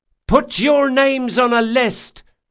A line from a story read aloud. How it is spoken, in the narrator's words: hollered Esri